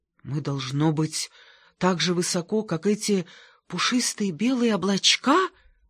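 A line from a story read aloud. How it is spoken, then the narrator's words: Breathless. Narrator (Russian): выдохнул он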